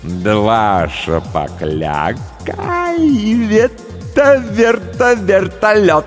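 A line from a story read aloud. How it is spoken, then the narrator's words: Laughing. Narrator (Russian): Он засмеялся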